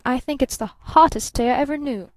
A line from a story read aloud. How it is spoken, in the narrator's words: snapped Barton